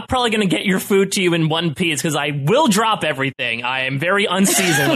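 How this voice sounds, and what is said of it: Usual voice. Nothing is said of it.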